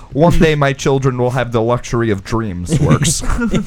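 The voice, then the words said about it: Put-on Russian accent. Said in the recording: “a Russian accent”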